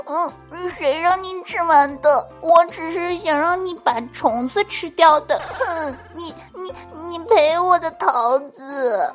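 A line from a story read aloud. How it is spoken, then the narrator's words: Loud crying. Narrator (Chinese): 闺女就大哭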